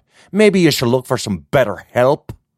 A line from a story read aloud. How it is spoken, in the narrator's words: Gemma spat out